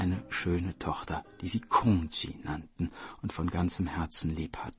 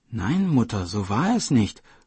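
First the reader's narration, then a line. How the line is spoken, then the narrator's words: Call. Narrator (German): rief Kongji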